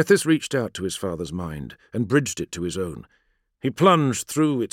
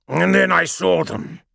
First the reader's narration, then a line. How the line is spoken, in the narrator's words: Angron hissed